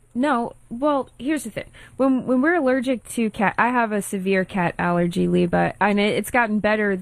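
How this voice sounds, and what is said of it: Congested, slightly deep voice. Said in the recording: “my voice is starting to sound a little deep. I get congested.”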